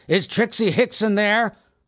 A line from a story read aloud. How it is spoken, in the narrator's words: He hollered